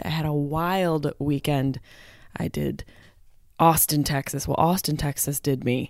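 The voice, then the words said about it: Tired voice. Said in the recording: “My voice is a little tired.”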